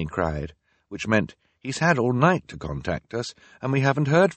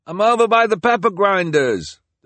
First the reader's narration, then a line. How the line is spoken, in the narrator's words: the delivery person called out in return